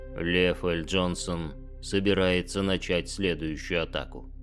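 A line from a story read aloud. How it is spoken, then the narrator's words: Calm. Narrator (Russian): спокойно произнес примарх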